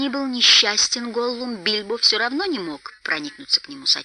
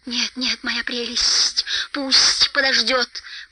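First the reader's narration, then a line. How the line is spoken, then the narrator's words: Hissing. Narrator (Russian): прошипел Голлум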